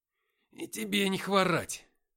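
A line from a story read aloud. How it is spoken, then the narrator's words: Growled through clenched teeth. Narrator (Russian): сквозь зубы прорычал я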